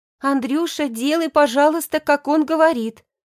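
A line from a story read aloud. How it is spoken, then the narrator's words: Pleading. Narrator (Russian): взмолилась Яна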